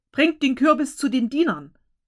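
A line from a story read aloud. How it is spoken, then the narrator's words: Called out. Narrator (German): dieser rief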